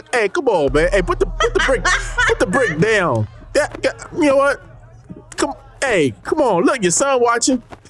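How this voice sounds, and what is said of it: Stern dad voice. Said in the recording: “You had like a dad voice with that.”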